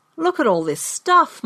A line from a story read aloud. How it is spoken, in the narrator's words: my brother exclaimed